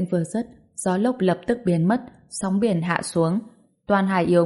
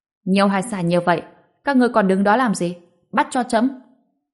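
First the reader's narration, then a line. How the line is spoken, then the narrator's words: Loud voice. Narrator (Vietnamese): Ngô Bình lớn tiếng nói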